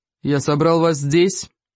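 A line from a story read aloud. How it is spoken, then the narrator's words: Booming, great chief. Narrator (Russian): прогудел великий вождь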